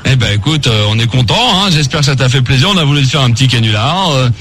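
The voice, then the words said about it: Disguised prank-call voice. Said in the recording (French): “je reprends ma voix ... j'ai pas ma voix”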